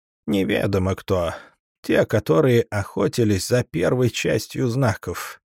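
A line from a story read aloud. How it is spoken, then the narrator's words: Hoarse. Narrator (Russian): хрипло произнес он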